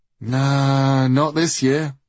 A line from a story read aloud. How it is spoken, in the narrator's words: sighed Baugi